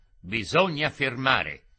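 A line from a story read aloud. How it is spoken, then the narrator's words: Harsh shout. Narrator (Italian): Remo riprese il suo piglio duro e gridò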